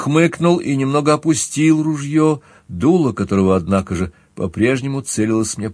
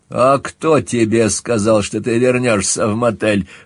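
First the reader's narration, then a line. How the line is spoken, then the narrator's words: Scoffing grunt. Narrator (Russian): хмыкнул Скальф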